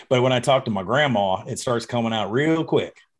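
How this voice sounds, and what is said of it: Bad fake Southern accent. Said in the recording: “That sounded like a fake Southern accent. ... That sounded terrible.”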